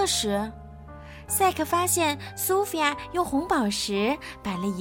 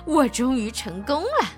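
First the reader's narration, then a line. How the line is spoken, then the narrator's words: Triumphant laugh. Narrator (Chinese): 他……笑了起来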